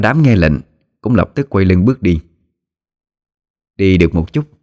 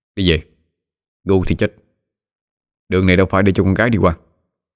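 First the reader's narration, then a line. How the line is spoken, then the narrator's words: Cold voice. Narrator (Vietnamese): Sói lạnh lùng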